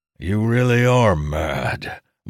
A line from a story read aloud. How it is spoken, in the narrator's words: said with a sigh